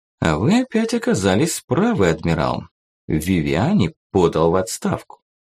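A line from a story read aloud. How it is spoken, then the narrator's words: Quiet male voice. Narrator (Russian): Николай II тихо произнес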